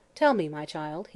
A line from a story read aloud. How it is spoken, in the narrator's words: he said gently